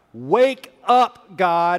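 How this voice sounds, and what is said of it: Yelling loudly. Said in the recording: “he's yelling at God ... it feels a little uncomfortable for me to yell like that in church”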